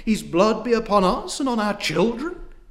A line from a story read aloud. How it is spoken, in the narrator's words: cried